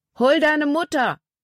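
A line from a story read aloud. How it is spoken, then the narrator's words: Calling out. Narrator (German): Paul rief ihr zu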